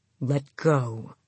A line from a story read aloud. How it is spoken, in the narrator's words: he growled again